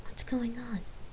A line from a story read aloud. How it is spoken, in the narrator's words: whispered in her ear